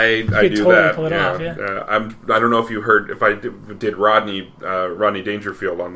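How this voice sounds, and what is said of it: Usual voice. Nothing is said of it.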